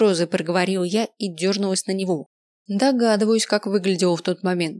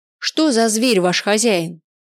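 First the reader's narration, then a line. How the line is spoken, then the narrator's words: Shouting. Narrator (Russian): закричал я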